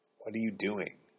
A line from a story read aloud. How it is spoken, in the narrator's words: he whispered